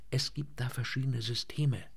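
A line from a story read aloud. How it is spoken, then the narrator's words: Quiet. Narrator (German): sagte er leise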